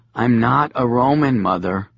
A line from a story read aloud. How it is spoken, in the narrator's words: Lucius said wearily